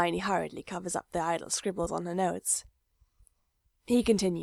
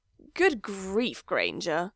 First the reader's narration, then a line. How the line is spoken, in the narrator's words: Draco sneers